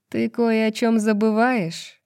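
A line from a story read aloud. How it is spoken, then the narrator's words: Gloomy pronouncement. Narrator (Russian): мрачно изрекла Джезиба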